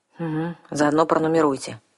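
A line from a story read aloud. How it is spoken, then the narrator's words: Gloomy advice. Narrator (Russian): мрачно посоветовал я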